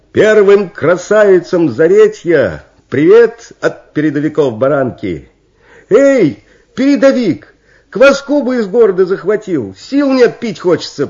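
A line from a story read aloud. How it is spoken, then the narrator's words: Shouting. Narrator (Russian): прокричала золотоволосая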